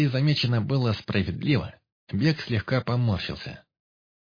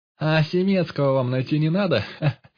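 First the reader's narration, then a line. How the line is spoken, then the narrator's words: Laughing mockery. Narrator (Russian): Захохотал Пыш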